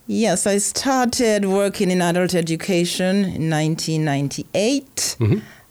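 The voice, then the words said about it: Antiguan Caribbean accent. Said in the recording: “You have a wonderful accent ... Antigua accent, or an Antiguan accent, is a beautiful accent.”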